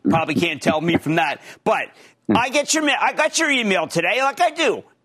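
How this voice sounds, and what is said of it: Philadelphia accent. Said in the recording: “I have a bad Philadelphia accent”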